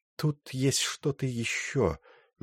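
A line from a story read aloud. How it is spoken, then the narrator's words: Slow speech. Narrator (Russian): медленно сказала она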